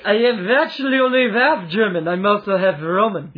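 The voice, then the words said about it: German accent. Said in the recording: “You sound German.”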